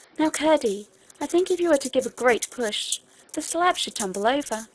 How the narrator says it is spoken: she said in a right joyous whisper

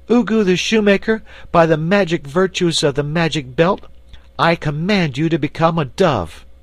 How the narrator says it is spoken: cried in a loud voice

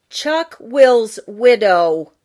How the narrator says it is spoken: Jenny Wren fairly shouted it

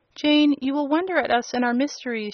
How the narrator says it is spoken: she said

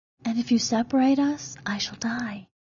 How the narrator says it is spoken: she whispered

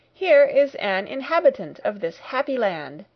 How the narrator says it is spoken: I cried

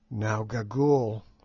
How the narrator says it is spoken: said I in a low voice

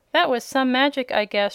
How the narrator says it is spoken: she exclaimed

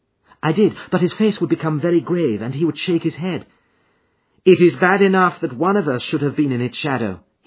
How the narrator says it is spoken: he said

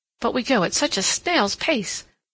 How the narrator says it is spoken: said impatiently

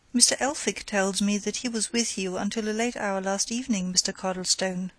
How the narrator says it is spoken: he said

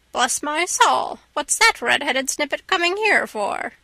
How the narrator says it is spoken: Ginger exclaimed

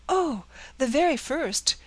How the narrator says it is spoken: exclaimed the eager girl

